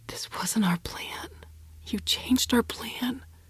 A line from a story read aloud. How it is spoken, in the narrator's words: I whispered